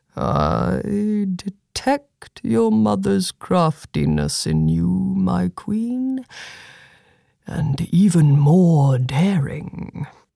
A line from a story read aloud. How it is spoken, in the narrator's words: he muttered